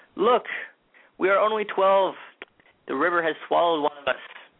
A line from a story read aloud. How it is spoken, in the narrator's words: He began to wail